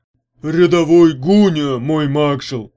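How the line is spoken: Very loud blurt. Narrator (Russian): выпалил тот так громко, что Дюга чуть не оглох

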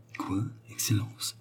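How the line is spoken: Stammered. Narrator (French): balbutia l'autre

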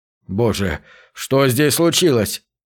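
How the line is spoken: Trembling voice. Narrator (Russian): дрожащим голосом спросил Джек

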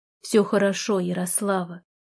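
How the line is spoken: Dull, muffled. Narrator (Russian): глухо сказал он

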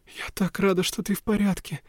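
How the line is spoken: Tearful, sniffling. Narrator (Russian): проговорила Вивьен и всхлипнула

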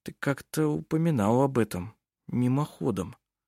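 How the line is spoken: Uncertain speech. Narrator (Russian): неуверенно сказал он

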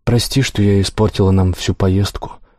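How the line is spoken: Sad apology. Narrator (Russian): грустно извинилась она

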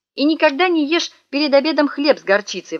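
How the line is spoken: Exclaimed. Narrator (Russian): воскликнула мама

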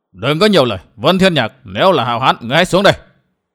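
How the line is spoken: Old man shouting. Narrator (Vietnamese): Lão già bịt mặt quát

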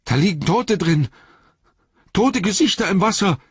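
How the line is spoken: Horrified cry. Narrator (German): rief er entsetzt

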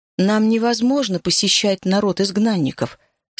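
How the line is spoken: Plain. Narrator (Russian): сказала я

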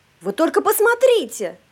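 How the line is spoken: Exclaimed. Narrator (Russian): воскликнула Сюзанна

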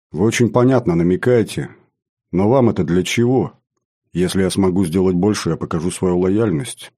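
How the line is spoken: Calm. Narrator (Russian): спокойно ответила

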